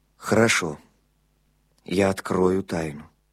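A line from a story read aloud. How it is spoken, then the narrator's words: Muffled, hollow. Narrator (Russian): глухо сказал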